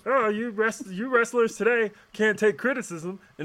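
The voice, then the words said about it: Imitates another person's voice. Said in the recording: “my impersonation, you know who I'm talking about.”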